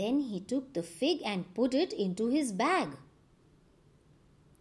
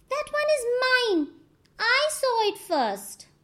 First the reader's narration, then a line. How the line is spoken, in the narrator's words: he shouted out